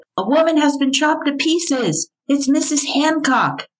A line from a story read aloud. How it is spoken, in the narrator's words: Alexander Wilkie, a night watchman, shouting